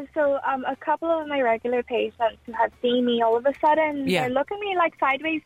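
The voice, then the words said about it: Speaks with an Irish accent. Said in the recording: “That's the Irish accent.”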